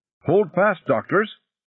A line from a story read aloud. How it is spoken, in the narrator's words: Cahiga shouted